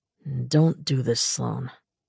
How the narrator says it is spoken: he said quietly

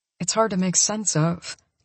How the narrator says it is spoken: I murmur

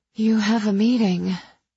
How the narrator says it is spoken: I panted

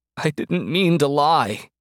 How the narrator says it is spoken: wailed into his palms

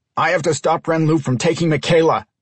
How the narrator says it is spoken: Brian yelled back

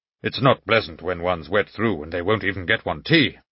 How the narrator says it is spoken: the old man muttered

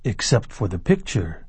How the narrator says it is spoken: he said softly

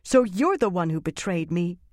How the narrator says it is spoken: Egwene said angrily

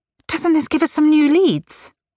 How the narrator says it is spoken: she pleaded

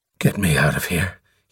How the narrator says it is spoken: he breathed hoarsely

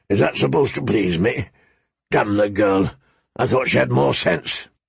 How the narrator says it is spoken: he grumbled

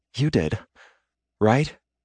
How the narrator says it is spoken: in a slightly slurred tone, she says

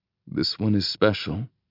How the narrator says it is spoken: I murmur

